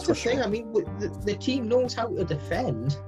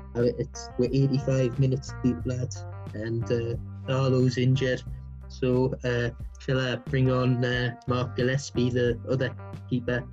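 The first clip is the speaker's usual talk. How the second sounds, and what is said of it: Imitates another person's voice. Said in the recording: “should I do me Steve Bruce impersonation for this bit?”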